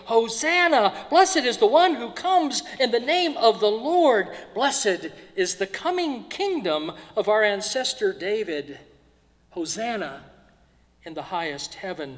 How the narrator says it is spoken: Then those who went ahead and those who followed were shouting

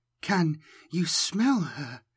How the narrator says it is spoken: she whispered

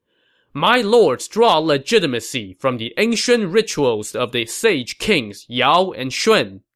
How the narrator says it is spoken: Sima Yi shouted across the line

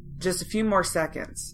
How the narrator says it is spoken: she said

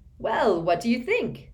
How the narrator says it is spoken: said Bagman happily

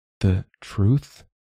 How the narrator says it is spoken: she asks hesitantly

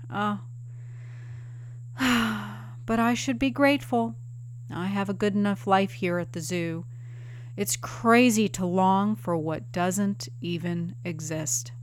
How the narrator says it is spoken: She'd sigh and say

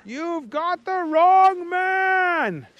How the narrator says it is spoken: shouted Picklesworth

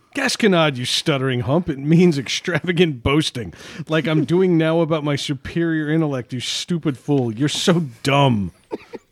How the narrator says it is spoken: Brad looks at him and says laughingly

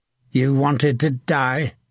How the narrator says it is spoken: Hook snarled

